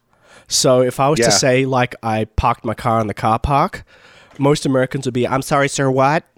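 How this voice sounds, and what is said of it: Australian accent, slightly Americanized. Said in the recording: “I grew up in Sydney, Australia. I do have sort of a slight Americanization of my accent ... I've learned to roll my R's ... it's this hybrid now”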